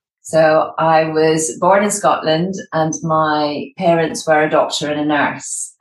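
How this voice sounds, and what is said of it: Scottish accent. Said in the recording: “you might have gathered from my accent that I'm Scottish”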